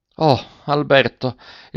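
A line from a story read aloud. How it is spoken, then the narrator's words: Forlorn woman's muffled exclamation. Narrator (Italian): esclamò la derelitta con voce sorda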